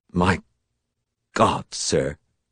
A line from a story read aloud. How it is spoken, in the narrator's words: Cal said faintly